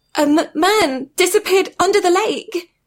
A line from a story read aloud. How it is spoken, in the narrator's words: sobs Annabeth